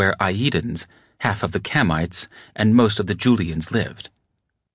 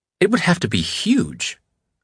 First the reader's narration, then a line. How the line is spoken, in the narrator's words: Einstein exclaimed